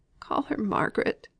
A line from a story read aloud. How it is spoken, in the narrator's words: gasped Mrs